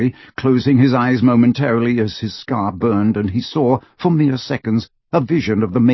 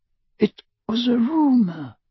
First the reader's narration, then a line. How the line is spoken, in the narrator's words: whispered Ollivander